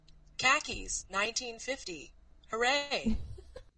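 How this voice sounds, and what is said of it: Flat, unenergetic commercial announcer voice. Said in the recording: “You could do a good Old Navy commercial ... you have to do it unenergetically, like you did ... That was even less exciting”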